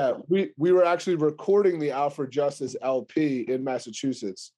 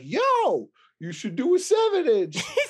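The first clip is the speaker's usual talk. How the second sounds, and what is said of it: Imitates another person's voice. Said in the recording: “that's your Jay impression.”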